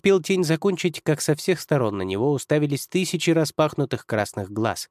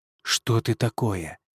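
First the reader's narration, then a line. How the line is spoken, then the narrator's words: Fearful whisper, forced calm. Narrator (Russian): прошептал тень, стараясь сохранить хотя бы спокойный вид, но внутри все подрагивало от страха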